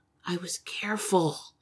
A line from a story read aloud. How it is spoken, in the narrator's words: she murmured